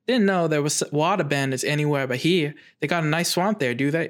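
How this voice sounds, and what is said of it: Put-on Southern Belle accent. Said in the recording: “completely wrong accent ... I'm doing like a Southern Belle accent”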